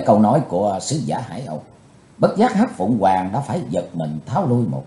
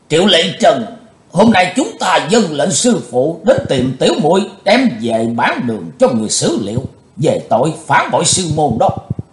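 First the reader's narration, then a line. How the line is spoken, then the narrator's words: Loud voice. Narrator (Vietnamese): lớn tiếng nói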